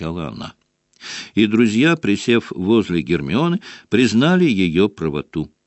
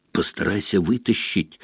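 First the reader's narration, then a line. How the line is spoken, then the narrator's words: Whisper. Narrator (Russian): шепнул Рон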